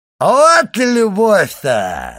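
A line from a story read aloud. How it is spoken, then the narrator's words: Drunken shout. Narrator (Russian): закричал Кадру с пьяным голосом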